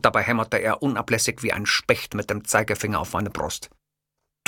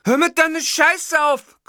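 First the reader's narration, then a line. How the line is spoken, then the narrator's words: Shrieking. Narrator (German): kreischte Witzgür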